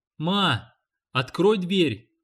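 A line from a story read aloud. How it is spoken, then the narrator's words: Shouted. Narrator (Russian): крикнул Данкин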